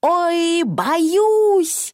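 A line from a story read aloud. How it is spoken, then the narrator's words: Old woman shouting. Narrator (Russian): бабушка закричала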